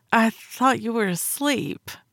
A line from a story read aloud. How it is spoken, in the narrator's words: I offered weakly, smiling despite my embarrassment